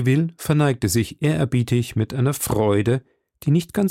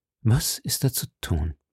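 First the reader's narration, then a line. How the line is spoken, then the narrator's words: King murmuring. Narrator (German): murmelte der König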